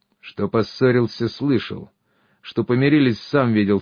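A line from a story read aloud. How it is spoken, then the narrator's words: Calm objection. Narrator (Russian): спокойно возразил плечистый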